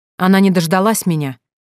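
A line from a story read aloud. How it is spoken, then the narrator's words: Barked. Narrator (Russian): рявкнул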